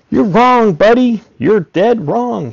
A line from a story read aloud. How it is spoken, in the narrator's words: shouted